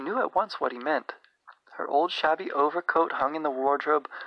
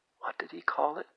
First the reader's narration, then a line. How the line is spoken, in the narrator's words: whispered